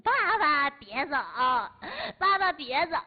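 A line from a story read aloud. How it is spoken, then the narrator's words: Child crying. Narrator (Chinese): 孩子还在那哭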